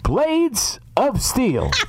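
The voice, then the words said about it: Konami video game announcer impression. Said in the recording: “Same voiceover. ... those are my two Konami impressions.”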